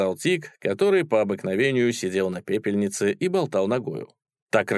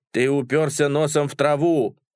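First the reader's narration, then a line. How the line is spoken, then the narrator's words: Shouting. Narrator (Russian): закричал Так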